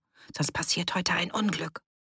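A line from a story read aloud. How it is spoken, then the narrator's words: Murmured. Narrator (German): raunte zu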